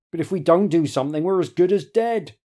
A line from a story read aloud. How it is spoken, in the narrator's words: a young, scholarly-looking man is saying desperately